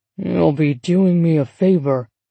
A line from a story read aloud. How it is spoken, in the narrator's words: Douglas grumbled